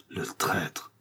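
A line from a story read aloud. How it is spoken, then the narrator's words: Murmuring. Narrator (French): murmura Madame Bonacieux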